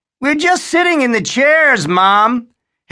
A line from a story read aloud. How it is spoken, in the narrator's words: Harry called out